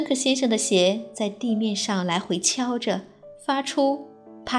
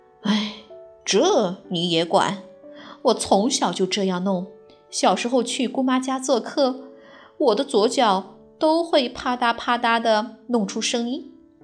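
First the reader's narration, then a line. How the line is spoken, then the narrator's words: Sighing. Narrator (Chinese): 芬克先生叹了口气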